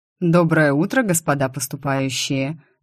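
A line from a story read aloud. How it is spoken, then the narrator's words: Mocking ghostly greeting. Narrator (Russian): насмешливо поздоровался призрачный лекарь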